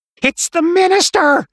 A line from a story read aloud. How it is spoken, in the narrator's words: Maud shrieked